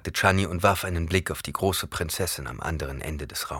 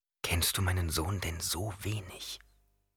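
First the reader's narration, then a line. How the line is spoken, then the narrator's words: Whisper. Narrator (German): flüsterte Jessica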